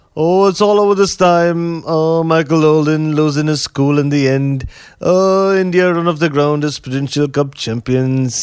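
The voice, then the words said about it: Imitates a cricket commentator's voice. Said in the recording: “my best impression of Jim Laker”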